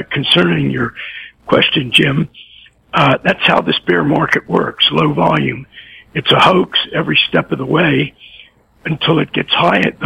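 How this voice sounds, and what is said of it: Hoarse, croaky laryngitis voice. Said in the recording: “I've got COVID, but just really feeble symptoms of it. It's just this comical laryngitis that sounds about 100 times worse than I feel... I'll try to croak it out today”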